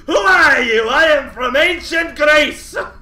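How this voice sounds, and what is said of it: Funny put-on accent. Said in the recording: “I'm the funny accent man.”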